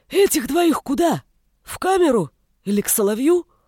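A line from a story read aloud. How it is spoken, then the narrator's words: Hoarse sick voice. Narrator (Russian): Хриплым от простуды голосом спросил один из разбойников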